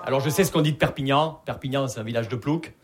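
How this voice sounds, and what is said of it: Southern French regional accent. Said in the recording (French): “Vous l'entendez à mon accent, je viens pas de Paris. Je viens de Perpignan.”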